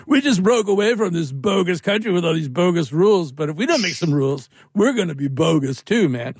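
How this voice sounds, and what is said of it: Impression of Jeff Spicoli. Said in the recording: “that wasn't a very good Jeff Spicoli impersonation.”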